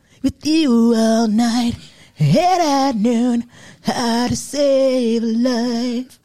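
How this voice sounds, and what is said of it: Raspy rock-star singing voice. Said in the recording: “singing ... raspy ass voice ... my white rock star voice”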